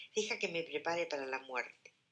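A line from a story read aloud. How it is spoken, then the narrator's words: Murmuring. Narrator (Spanish): murmura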